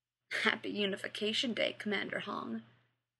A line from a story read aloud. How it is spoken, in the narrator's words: Mal muttered